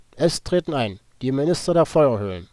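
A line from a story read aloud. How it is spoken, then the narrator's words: Strong voice. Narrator (German): Mit kräftiger Stimme sagte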